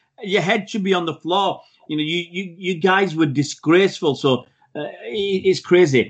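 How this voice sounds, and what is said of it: Usual voice. Nothing is said of it.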